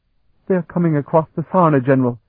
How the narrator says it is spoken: Jodrell replied, trying his best to control his quavering voice

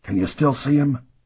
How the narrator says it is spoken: whispered to the other

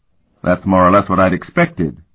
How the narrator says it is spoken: Worgen grunted

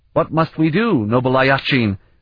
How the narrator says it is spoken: the crudely armored man shrieked

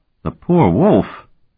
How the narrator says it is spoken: Kring exclaimed

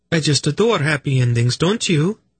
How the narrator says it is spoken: Velvet said brightly to Tenedra

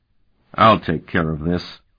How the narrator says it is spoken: Sparhawk said flatly

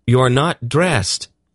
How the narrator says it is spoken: Garion exclaimed in a shocked gasp

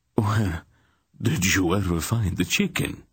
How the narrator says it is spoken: Rodar exclaimed

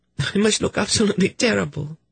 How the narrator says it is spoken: said with a teary little laugh

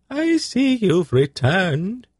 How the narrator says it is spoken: he said in a piping soprano voice

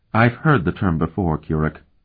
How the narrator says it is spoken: Elana said calmly

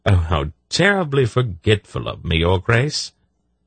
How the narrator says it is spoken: he exclaimed

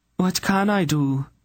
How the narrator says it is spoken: Eileena pleaded

